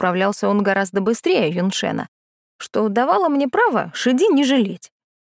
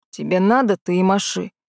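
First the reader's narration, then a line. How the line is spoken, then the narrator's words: Growl. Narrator (Russian): рыкнул Лунвайер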